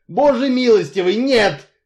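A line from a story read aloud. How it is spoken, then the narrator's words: Irritated exclamation. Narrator (Russian): раздраженно воскликнул мистер Ривз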